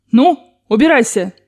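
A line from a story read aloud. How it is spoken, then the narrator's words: Old woman shouting. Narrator (Russian): крикнула бабушка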